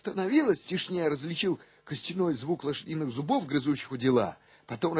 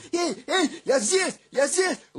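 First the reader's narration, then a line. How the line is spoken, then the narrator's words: Shouting. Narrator (Russian): закричал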